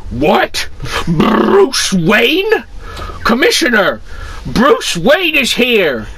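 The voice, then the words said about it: Put-on fat cop character voice. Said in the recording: “I'm going to do the voice of the fat cop with the fag on his mouth”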